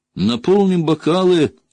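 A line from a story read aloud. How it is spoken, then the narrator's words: Cheerful. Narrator (Russian): весело сказал он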